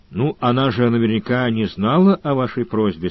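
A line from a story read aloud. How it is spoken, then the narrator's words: Plain. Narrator (Russian): сказал Сварог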